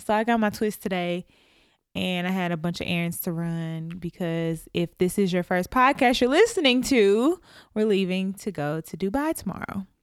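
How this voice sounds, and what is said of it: Nashville Southern US accent. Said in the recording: “I had a Nashville accent ... Absolutely. Country.”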